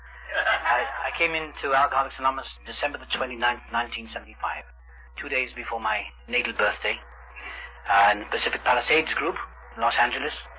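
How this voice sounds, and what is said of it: Noticeable accent, deliberately slow speech. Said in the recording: “I'm trying to speak slowly because I've got a funny accent.”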